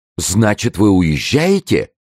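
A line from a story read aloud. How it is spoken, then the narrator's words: Joyful exclamation in unison. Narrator (Russian): воскликнули в один голос Арамис и Безмо, которых обрадовала приятная неожиданность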